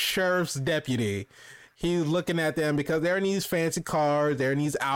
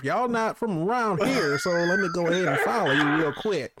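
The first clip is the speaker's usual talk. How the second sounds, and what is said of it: Put-on small-town sheriff accent. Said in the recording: “What accent is this? Is that you're doing right now? ... real small town sheriff”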